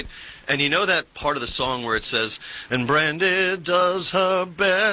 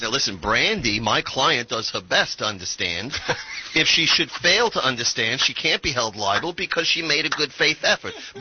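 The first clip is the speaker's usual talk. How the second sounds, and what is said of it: New York lawyer voice. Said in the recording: “my New York lawyer voice”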